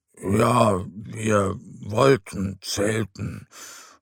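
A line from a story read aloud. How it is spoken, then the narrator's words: Murmuring. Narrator (German): murmelt er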